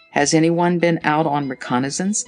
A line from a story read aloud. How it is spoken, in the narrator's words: asked Tommy